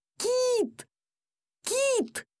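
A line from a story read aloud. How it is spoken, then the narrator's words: Yelled. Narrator (Russian): я орал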